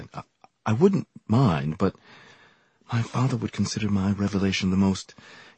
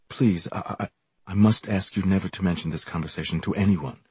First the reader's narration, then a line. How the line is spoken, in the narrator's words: stammered guiltily